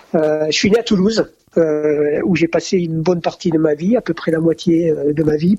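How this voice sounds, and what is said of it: Slight southern French accent. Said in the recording (French): “t'as un délicieux petit accent du sud ... j'ai encore des réminiscences d'accent du sud, du sud-ouest”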